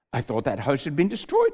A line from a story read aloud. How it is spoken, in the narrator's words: said Edmund